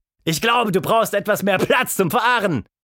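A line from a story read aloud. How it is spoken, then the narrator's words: Calling back. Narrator (German): Miss Anita rief zurück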